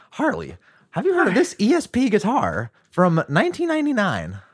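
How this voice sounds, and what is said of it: Good imitation of another person's voice. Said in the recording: “That's a pretty good impression. ... he's pretty good at them.”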